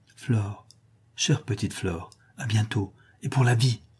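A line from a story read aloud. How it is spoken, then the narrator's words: Murmured. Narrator (French): lui murmure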